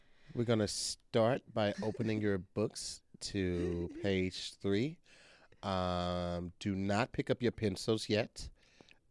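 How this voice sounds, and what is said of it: Stiff formal test-proctor voice. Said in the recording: “you sound like a proctor”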